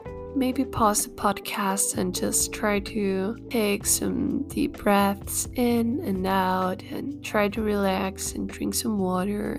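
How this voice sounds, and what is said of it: Slightly altered, sick-sounding voice. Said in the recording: “I got sick last week. That's why my voice is a little bit different, if you noticed.”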